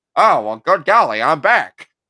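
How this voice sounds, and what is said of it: Put-on transatlantic accent. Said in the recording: “transatlantic accent”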